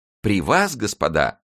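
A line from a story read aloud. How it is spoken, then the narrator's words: Embarrassed exclamation. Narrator (Russian): воскликнул смущенный Бруссель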